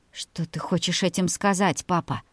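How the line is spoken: Trembling voice. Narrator (Russian): дрогнувшим голосом произнесла Полина

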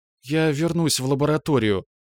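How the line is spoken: Hesitant request. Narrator (Russian): неуверенно попросилась она

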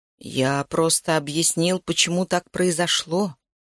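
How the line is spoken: Soft male voice. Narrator (Russian): мягко сказал он

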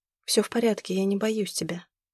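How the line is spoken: Answered softly. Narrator (Russian): мягко ответила Зима

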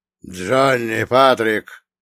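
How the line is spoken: Booming old man's voice. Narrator (Russian): голос старика буквально прогремел, разносясь по самым отдаленным уголкам склада

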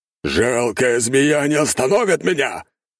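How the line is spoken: Roaring. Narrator (Russian): взревел

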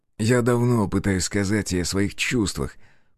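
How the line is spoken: Confessing with awkward laugh. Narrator (Russian): признался он, неловко посмеялся

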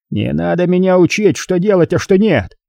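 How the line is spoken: Growling. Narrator (Russian): прорычал Харрисон

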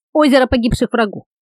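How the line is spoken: Plain. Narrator (Russian): сказал Навали Тии

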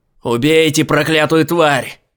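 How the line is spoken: Yelling. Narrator (Russian): вопил он

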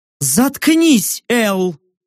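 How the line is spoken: Barked angrily. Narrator (Russian): Зло рявкнула нимфа

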